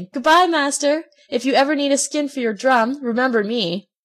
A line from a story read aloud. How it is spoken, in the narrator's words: Swimming away as fast as he could, he cried out, laughing